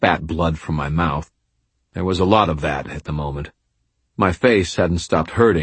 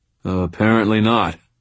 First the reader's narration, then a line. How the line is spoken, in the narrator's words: I slurred